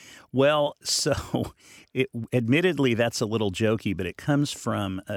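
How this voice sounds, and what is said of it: Usual voice. Nothing is said of it.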